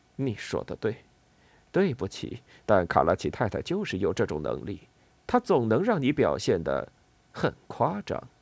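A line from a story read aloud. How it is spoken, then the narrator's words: Muttering in Italian. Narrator (Chinese): 对着索卡沃用意大利语嘟囔了一句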